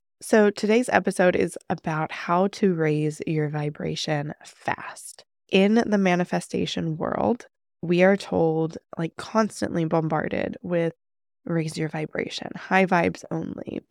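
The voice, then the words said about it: Nasal, congested voice. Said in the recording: “I sound a little nasally ... battling some kind of sickness ... battling some congestion and stuff ... I sound a little weird today”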